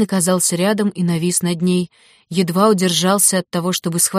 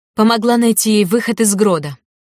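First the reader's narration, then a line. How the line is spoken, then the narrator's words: Angry exclamation, woman. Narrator (Russian): гневно воскликнула старшая княжна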